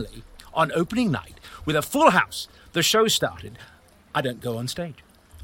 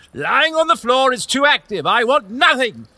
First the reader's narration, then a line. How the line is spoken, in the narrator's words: The director shouted